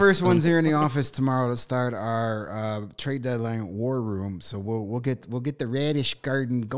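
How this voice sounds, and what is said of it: Usual voice. Nothing is said of it.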